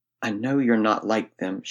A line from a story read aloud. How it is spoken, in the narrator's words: she whispered